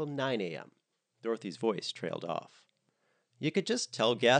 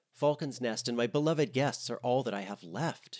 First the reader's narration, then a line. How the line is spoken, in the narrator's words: she cried